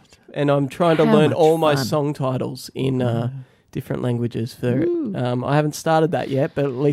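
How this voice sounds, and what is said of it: Usual voice. Nothing is said of it.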